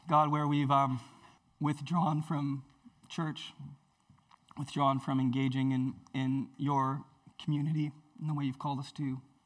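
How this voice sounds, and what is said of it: Strained voice cutting out. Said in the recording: “my voice is cutting out ... my coughs and need for cough drops”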